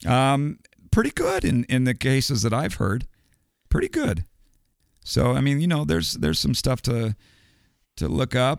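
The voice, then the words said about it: Slightly raspy voice. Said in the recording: “my voice is a little bit raspy today.”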